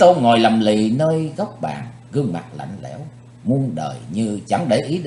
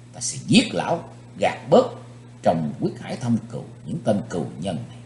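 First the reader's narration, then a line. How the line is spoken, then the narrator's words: Soft hiss through clenched teeth. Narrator (Vietnamese): Chí Tôn rít khẽ qua hai hàm răng cắn chặt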